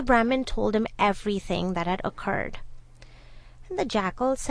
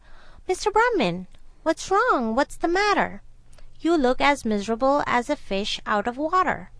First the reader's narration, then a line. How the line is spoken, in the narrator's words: a jackal, who called out and said